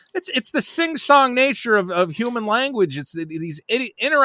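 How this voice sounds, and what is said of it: Usual voice. Nothing is said of it.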